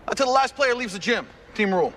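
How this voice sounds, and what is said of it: Loud yelling like a coach. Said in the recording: “like a coach yelling, but like all of his lines are sound like a coach yelling”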